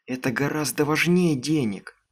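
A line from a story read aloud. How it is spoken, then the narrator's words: Whispered. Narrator (Russian): прошептала Аманда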